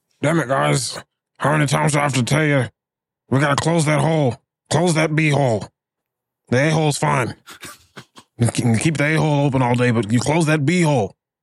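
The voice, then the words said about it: Imitates another person's voice. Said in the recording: “Do your best impression of former Dallas Cowboys defensive tackle Jeremiah Ratliff ... Got a distinct sound”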